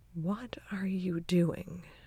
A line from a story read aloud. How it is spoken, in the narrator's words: Rebecca murmurs, a thin thread of irritation in her voice